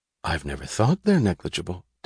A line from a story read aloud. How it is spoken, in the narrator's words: Dagny answered happily